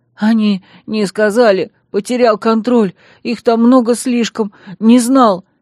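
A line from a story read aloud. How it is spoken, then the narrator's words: Sobbing, incoherent young man. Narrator (Russian): Перемежая несвязное повествование всхлипами, поведал парень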